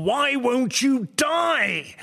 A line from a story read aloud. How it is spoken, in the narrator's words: a small child screaming and howling with fear